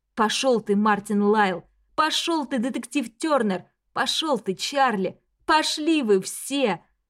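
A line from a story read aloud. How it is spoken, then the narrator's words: Hoarse rasp. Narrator (Russian): Адрия хрипит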